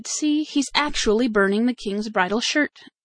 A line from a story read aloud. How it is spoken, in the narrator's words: The other servants commenced grumbling again, and said